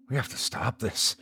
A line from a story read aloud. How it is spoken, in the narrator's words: Anya whispered to me